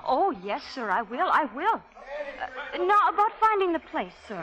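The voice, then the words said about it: Strong Irish accent. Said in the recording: “that's quite an accent you got there. Irish, ain't it?”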